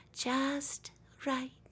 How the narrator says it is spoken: She murmured

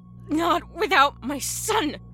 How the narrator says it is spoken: she hissed through gritted teeth

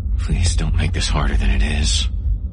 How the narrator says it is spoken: Aaron whispered

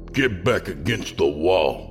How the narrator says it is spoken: the second officer snarled

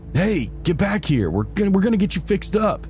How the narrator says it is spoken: someone yell over my engine

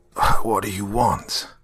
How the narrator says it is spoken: croaked hoarsely

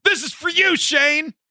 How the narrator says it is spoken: drunk 20-year-olds, we convinced our buddy, the one who had a girlfriend, to yell out

